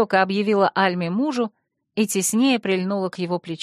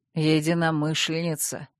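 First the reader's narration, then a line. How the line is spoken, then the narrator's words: Gentle correction. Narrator (Russian): мягко поправил он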